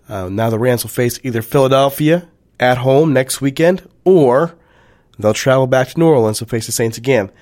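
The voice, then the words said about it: Hoarse voice. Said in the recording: “I'm a little under the weather, ... my voice is a little hoarse,”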